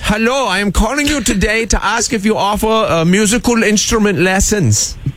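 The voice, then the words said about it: Put-on Bavarian German accent. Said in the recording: “Yes, a Bavarian friend.”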